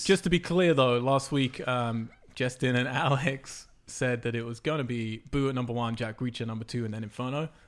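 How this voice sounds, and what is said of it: Speaks with a noticeable accent. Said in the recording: “Is my accent confusing you? ... The beauty of my accent, if you don't understand something, just pretend it's whatever you want it”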